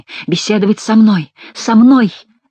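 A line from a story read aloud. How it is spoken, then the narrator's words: Exclaiming. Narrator (Russian): воскликнул барон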